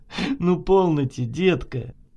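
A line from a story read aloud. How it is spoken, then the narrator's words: Laughing. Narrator (Russian): Засмеялся Сурен Иванович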